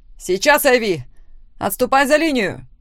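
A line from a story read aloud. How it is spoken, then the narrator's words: Shout. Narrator (Russian): крикнула Лора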